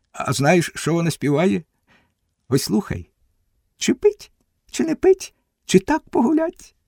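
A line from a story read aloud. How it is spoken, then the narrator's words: Laughing. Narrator (Ukrainian): Григорій засміявся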